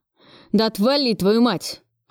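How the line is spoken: Angry. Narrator (Russian): Кравцов сердито

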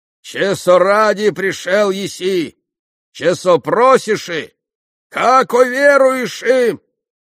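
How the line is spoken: Shouting, mock-holy fool. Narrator (Russian): прокричал отец Ферапонт юродствуя

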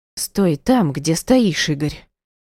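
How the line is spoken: Whimpering. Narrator (Russian): Ванька хныкала

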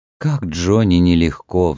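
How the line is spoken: Sighing. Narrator (Russian): вздохнула миссис Шейер

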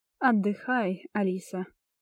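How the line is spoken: Warm, smiling voice. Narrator (Russian): ласково улыбнулся магистр

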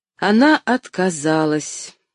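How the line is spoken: Sad smiling reply. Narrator (Russian): грустно улыбнувшись, ответил он

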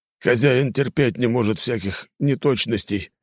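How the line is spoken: Sighing. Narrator (Russian): вздохнул Луций

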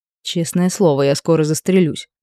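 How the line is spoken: Mumbling. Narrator (Russian): пробормотала сидящая рядом Айда

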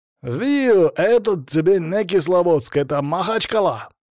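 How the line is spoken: Approving shout. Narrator (Russian): кто-то одобрительно крикнул в ответ

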